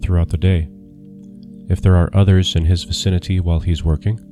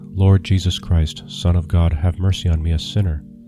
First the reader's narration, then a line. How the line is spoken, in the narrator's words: let him quietly read